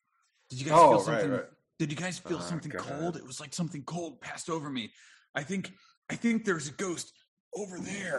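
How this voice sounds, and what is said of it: Imitates another person's voice. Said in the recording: “my best Zach Baggins impression”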